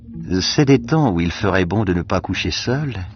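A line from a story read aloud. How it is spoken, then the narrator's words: Dreamy woman's voice. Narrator (French): fit la femme d'un ton rêveur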